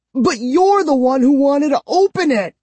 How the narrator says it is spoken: I shrieked

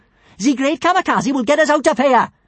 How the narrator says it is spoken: shouted Kamikaze

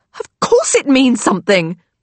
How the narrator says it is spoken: Lily snaps

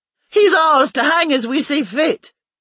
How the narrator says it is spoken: shouted from the crowd

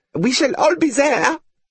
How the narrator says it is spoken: said one of them brightly

